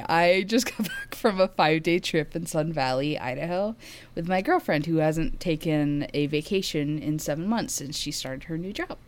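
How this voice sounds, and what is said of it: Voice sounds rough and unwell. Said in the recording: “My voice sounds awful.”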